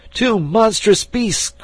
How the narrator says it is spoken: cried he

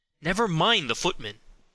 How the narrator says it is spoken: said Henry impatiently

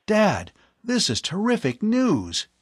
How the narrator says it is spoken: he exclaimed

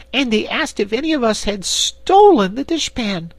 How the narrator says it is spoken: continued Corporal Waddle indignantly

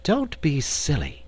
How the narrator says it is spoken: returned Dorothy impatiently

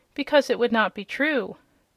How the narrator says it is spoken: said Dorothy gravely

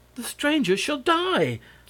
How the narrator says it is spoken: snapped

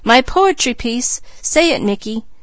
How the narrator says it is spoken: she cried

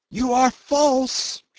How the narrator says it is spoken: she screamed after Jim

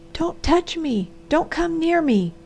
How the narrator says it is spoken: she cried

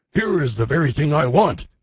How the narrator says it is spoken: he exclaimed

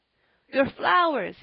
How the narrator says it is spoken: he panted

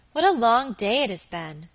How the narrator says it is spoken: exclaimed Alicia

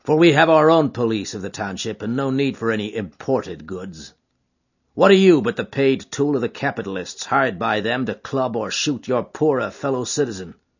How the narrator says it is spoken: said McGinty coldly

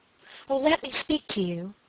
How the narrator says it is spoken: she cried

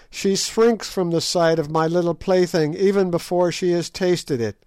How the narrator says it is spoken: cried Scragga in a high glee

